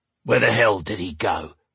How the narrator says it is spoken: one of the men growled

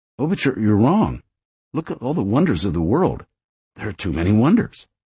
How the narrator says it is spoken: Another one, and one who wasn't too bright, in Virgil's estimation, had said urgently

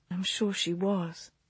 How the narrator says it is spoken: Clara said gently

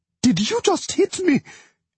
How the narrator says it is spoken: she shrieked

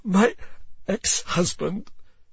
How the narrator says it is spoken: she says through her sobs

